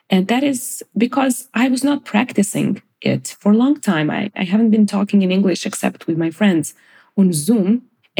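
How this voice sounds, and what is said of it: Non-native English accent. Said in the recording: “my English accent is hideous”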